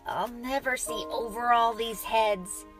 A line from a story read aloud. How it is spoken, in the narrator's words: he groaned as he said